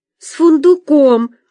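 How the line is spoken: Answered, then sobbing. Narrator (Russian): ответила Катюша и опять разрыдалась

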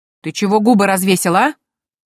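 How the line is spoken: Menacing bark. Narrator (Russian): Грозно рявкнула Дейзи

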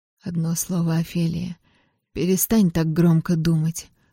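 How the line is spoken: Trembling whisper in ear. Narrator (Russian): прошептал он дрожащим голосом мне в ухо

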